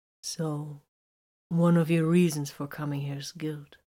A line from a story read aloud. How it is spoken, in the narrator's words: Titus asked softly